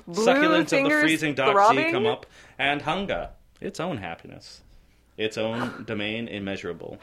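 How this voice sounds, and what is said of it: Put-on aristocratic New England accent. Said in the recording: “How would you describe the accent you're using? ... It started out kind of New England-y. ... It moved a bit. ... It turned into like is? Catherine Hepburn. ... it shifted. ... Is that like aristocratic New England-y? ... Yes.”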